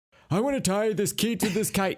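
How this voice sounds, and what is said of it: Imitates another person's voice. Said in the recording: “Was that your Ben Franklin impression?”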